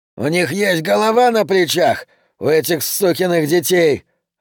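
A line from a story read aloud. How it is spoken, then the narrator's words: Yelling over engine roar. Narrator (Russian): орал Юджин, стараясь перекричать яростный гул мотора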